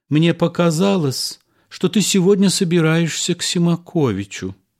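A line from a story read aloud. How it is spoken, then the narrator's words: Hesitant, uncertain. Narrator (Russian): Жена, помолчав, сказала неуверенно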